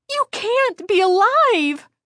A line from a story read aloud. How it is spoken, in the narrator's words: Chris exclaimed